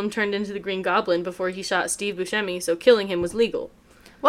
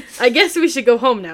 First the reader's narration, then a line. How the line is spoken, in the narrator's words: Michael said